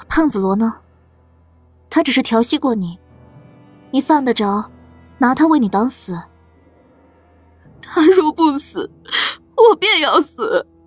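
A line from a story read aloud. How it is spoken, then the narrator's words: Sighing. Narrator (Chinese): 苏黎叹了口气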